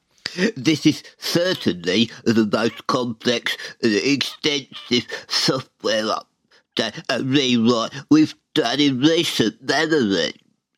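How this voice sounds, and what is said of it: Silly imitated voice. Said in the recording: “he sounds like this ... silly voice”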